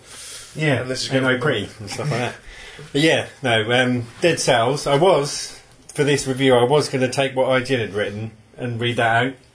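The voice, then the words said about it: Strained, fading voice. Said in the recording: “My voice is going ... How could you be fucking losing your voice?”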